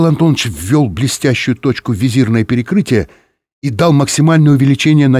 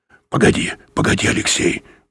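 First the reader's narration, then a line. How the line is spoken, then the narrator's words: Muttering. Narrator (Russian): пробормотал Юрковский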